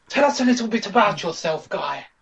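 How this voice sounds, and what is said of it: Strange altered character voice. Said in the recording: “I've got the head of a fetus, so my voice is a bit strange”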